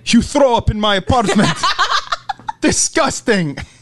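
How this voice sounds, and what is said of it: Put-on Eastern European or German accent. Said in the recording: “You're telling me you don't have a Serbian accent. ... You don't have one. You have a German accent”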